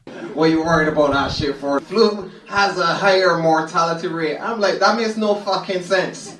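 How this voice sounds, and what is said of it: Caribbean accent. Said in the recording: “he comes from Barbados ... a Caribbean accent.”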